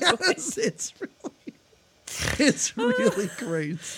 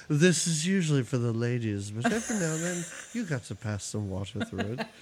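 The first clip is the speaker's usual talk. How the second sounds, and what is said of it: Imitates a film character's accent. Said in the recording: “I can't do the accent. You do ... really good.”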